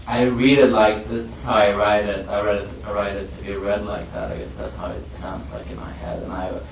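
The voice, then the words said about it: Speaks with a noticeable foreign accent. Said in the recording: “I hate my voice. I can't stand that. He's so ugly and has a weird accent and stuff ... my voice is kind of weird ... anybody who has an accent in like middle America”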